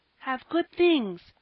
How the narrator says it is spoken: cried the child, in delight at understanding the others

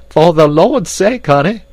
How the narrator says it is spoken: cried Esmeralda

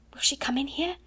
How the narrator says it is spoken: Ermengarde whispered back, panic-stricken

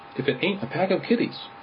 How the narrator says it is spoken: he cried

